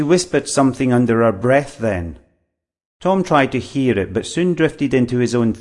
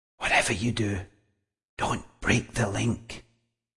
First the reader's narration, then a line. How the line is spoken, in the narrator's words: the girl whispered